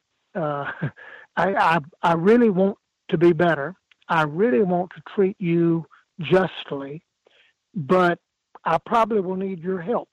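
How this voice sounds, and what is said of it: South Carolina Southern accent. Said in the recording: “with my accent, you can tell I'm from South Carolina”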